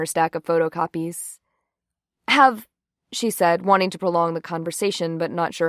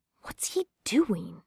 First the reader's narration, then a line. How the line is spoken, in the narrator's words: Jane whispered